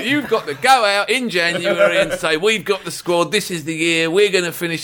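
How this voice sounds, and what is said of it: Irish accent. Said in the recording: “your Irish accent”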